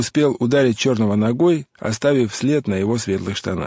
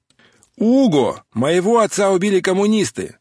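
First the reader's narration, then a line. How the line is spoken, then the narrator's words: Said very loudly. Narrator (Russian): сказал Отто так громко, чтобы это было слышно в последнем такси в очереди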